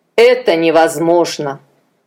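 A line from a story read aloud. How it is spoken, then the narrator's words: Sighed. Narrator (Russian): Адонирам вздохнул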